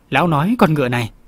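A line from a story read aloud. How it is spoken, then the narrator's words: Old man, smiling. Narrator (Vietnamese): Lý lão già mỉm cười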